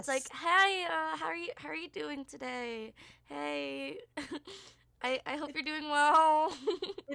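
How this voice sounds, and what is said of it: Fake customer service voice, shifted pitch. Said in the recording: “fake voice that I put out. Like, you know the customer service voice where you, like, your either pitch goes higher or lower?”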